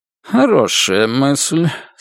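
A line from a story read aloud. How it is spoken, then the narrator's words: Condescending mutter, general. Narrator (Russian): снисходительно бормочет генерал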